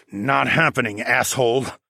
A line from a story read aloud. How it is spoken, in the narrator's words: I snarled